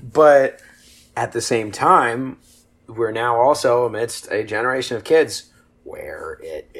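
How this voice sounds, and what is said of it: Usual voice. Nothing is said of it.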